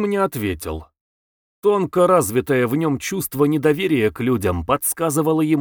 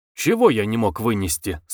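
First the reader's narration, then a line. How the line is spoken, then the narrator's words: Plain. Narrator (Russian): спросил жандарм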